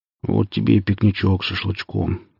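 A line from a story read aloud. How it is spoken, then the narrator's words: Blissful mutter. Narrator (Russian): пробормотал Василий, благодатно жмурясь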